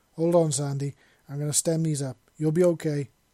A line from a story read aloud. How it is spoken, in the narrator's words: he said quickly